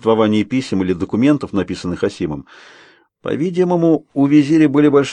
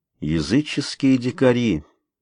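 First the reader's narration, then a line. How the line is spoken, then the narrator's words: Muttered. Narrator (Russian): бормочет Стюарт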